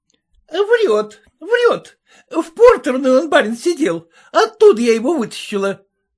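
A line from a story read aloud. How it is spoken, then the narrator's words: Shouting. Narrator (Russian): закричала кухарка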